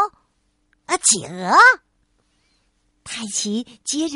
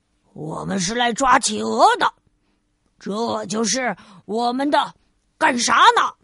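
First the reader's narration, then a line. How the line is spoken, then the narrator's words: Low growling reply. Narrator (Chinese): 猎人们低吼着回答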